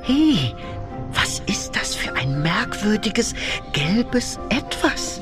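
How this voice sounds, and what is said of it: Whispering. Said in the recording (German): “Flüstert er.”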